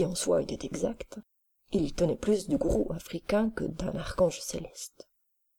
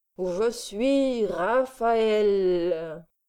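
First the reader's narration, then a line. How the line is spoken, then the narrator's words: Loud firm declaration. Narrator (French): affirmé, les yeux fermés, d'une voix forte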